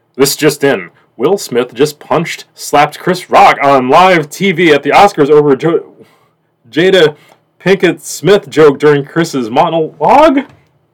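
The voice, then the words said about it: News announcer voice. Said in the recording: “let's get our best announcer voice on”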